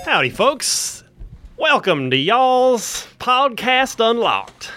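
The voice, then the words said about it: Slips into a put-on accent midway. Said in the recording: “Halfway through that, you decided to do the accent. ... I went with it. ... When you don't fully commit, it never works.”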